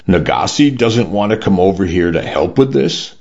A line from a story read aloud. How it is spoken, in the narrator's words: Petros said